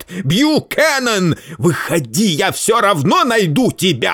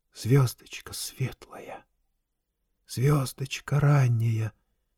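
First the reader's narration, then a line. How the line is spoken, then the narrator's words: Whispered. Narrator (Russian): зашептал он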